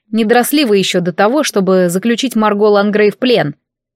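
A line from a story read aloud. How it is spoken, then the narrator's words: Grumbling under breath. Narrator (Russian): ворчала себе под нос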